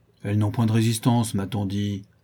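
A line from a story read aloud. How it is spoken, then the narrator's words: Uncle grumbling. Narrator (French): grommela l'oncle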